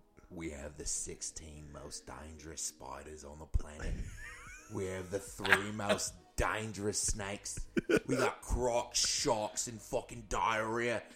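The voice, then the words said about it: Put-on Australian accent. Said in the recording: “you have a great Australian accent.”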